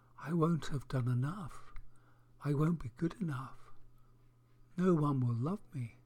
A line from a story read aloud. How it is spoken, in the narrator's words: the bird answered very quietly